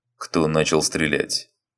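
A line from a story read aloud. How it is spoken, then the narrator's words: Menacing question. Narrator (Russian): Грозно спросил Григорий Иванович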